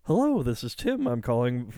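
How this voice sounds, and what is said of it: Flat, pre-recorded-sounding telemarketer voice. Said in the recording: “your telemarketer script ... You sound like a pre-recorded message.”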